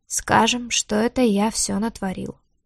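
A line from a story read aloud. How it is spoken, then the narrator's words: Calm, detached. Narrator (Russian): спокойно и как-то отрешенно проговорил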